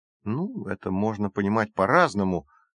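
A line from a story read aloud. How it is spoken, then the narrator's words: Uncertain, hesitant. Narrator (Russian): неуверенно произнес Джейсон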